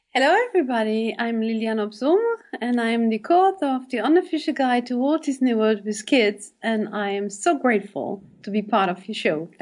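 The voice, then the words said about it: German-Belgian accent with British English. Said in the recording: “that wonderful accent you sport ... the accent is a bit of a mix. I'm born in Belgium. I'm born in the German-speaking part of the country. So my mother tongue actually is German. However, I learned English the British way. So whatever British nice. Sounds you may hear”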